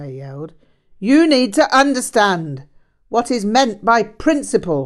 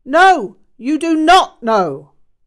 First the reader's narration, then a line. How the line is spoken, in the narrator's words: he barked